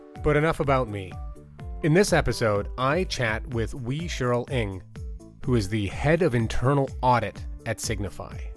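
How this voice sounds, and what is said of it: Congested, sick-sounding voice. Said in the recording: “I have a cold. That's why my voice sounds like this.”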